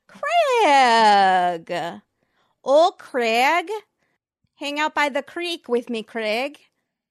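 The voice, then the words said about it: Attempted Southern accent, sounding Scottish-Wisconsin. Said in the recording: “One in a Southern accent ... That was Scottish and Wisconsin somehow. A Scot in Wisconsin.”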